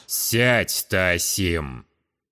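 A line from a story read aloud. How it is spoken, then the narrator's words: Stern order. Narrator (Russian): Строго приказал отец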